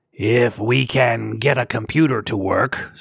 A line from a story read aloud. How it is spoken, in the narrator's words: Sar growled